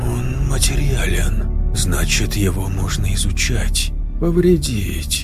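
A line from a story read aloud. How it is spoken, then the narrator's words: Muttered to himself. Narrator (Russian): пробормотал он, больше для себя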